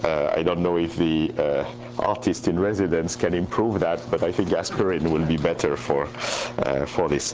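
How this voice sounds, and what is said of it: Voice affected by a cold. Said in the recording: “caught a cold in the plane, so I hope you will pardon my voice.”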